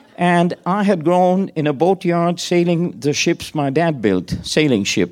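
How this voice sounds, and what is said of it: Strong non-American accent in English. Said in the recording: “Your accent's very bad.”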